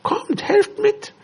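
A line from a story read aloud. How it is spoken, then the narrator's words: Excited call. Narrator (German): rief Timon aufgeregt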